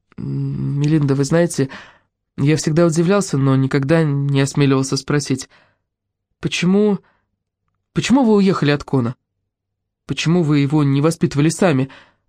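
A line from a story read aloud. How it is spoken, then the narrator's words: Timid question. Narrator (Russian): робко спросил Тоби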